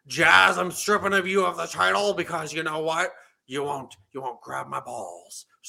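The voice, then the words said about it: Male impression of another person's voice. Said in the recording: “What do you mean you don't do male impersonation? That was a fine Vince McMahon.”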